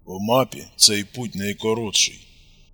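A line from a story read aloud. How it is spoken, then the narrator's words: Grumbled. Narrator (Russian): буркнул Костик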